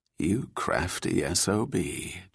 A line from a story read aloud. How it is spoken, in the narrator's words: Julia muttered in admiration